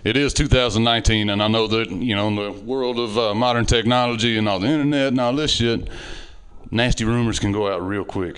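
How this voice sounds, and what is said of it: Southern redneck American accent. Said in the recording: “the random redneck ... especially with this accent.”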